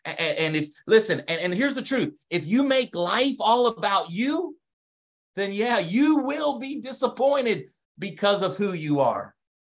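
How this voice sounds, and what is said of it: Delaware American accent. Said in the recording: “my accent, my Delaware accent. I don't have a Canadian accent. I don't have a Southern accent ... you think I'm from the South ... He's from the North”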